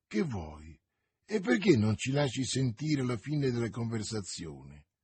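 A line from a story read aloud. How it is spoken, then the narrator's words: Low voice. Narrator (Italian): disse Athos a bassa voce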